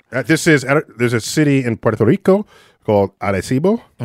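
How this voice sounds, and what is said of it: Put-on Spanish-style accent. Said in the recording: “You like my accent? ... Muy bueno.”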